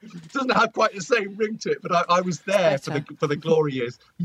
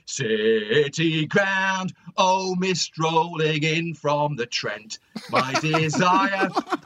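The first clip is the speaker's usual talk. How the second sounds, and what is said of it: Sung football chant in Nottingham accent. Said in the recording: “if you'll excuse my excruciating voice, I wasn't expecting to do it, in a sort of Nottingham accent”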